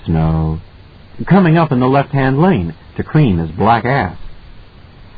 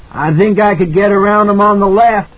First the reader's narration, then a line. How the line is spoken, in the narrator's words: Halloran shouted back